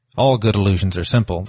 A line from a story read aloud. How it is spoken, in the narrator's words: grunted